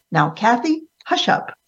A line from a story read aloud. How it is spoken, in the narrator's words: my grandmother's voice I heard calling out sharply